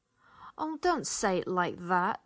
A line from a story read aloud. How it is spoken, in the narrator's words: Chand whined, adding a salacious laugh